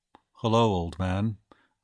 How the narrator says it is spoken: I murmured in a death bedside voice

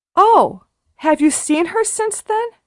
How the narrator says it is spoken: exclaimed Sara

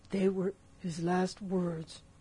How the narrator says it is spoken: moaned Morgan

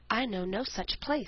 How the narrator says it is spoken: said the tree

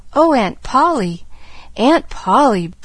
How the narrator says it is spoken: breathed the little girl rapturously

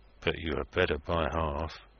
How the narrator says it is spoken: muttered Joey Ladle inaudibly

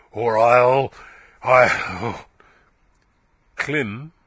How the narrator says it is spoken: she answered slowly

